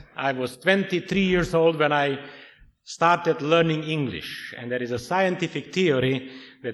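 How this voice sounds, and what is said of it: Foreign accent in English. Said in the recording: “I'm a foreigner ... I will not apologize for my accent.”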